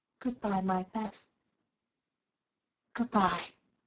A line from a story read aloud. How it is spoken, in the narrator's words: with her heart on her lips, and softly whispered